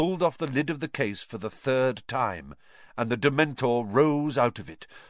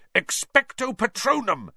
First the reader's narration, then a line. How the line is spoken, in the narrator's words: Harry bellowed